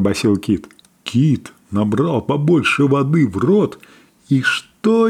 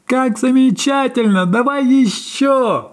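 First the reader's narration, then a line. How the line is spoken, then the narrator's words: Playful shout. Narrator (Russian): игриво закричала она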